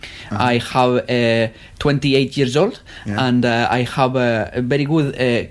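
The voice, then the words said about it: Mock Spanish accent in English. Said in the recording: “Spanish people or French people speaking English ... Is that a Spanish guy speaking English?”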